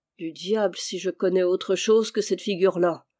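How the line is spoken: Grumbled. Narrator (French): grommela-t-il

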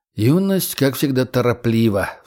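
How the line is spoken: Secretary sighing inwardly. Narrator (Russian): вздохнул про себя секретарь

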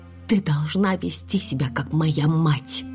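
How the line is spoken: Whisper. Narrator (Russian): прошептала я

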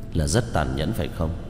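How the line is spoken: Sighing, gentle. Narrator (Vietnamese): thở dài, dịu dàng nói

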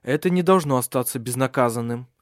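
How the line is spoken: Resolute tone. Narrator (Russian): сказал он решительным тоном

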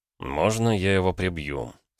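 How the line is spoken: Very quiet question. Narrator (Russian): спросил Ромка так тихо, чтобы кроме меня его никто не услышал

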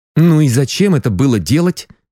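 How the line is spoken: Angry question. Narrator (Russian): сердито спросил я захребетника

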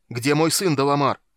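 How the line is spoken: Hoarse shout. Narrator (Russian): хрипло выкрикнул Танис

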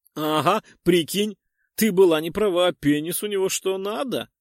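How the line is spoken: Laughing reply. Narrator (Russian): рассмеялась в ответ вторая

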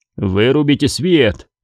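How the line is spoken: Grumble. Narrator (Russian): проворчал он

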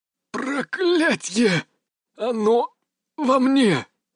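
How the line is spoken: Breathed out. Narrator (Russian): выдохнул он

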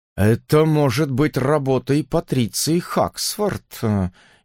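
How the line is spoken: Uncertain suggestion. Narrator (Russian): неуверенно предположил он

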